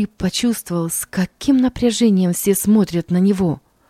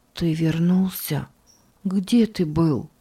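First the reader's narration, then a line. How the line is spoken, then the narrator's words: Sick man whispering. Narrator (Russian): Больной ... прошептал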